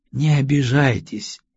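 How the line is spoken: Soft, gentle voice. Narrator (Russian): мягко произнес гость

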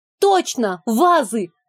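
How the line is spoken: Excited shout. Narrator (Russian): выкрикнула я догадку

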